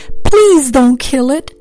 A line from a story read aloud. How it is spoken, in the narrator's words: she sobbed